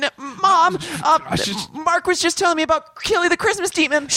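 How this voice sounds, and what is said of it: Usual voice. Nothing is said of it.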